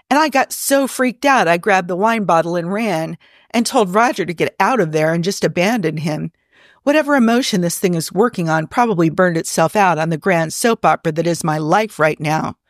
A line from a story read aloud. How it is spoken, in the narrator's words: laughs bitterly